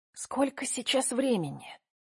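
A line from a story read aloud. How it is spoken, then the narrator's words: Whisper. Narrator (Russian): прошептала Катя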